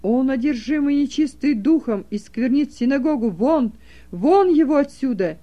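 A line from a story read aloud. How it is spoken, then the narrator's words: Frantic crowd shouting, crying. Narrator (Russian): Женщины кричали, дети плакали, а мужчины неистово кричали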